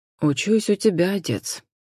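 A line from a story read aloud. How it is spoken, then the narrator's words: Unexpectedly soft reply. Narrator (Russian): неожиданно мягко откликнулся Джон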